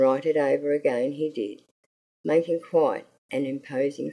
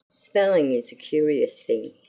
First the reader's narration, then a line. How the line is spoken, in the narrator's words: he said